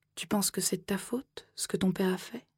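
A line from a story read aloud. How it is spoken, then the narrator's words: Soft. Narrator (French): a-t-elle dit doucement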